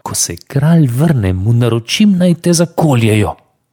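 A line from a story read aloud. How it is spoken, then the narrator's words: Threatening. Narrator (Slovenian): mu zagrozila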